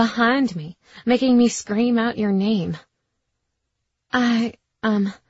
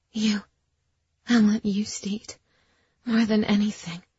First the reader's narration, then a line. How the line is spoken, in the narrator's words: I whispered